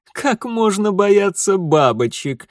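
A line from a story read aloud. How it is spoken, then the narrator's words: Mocking laughter, shadows. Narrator (Russian): смеялись тени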